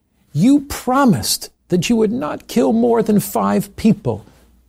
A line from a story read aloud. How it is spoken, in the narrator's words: He shouted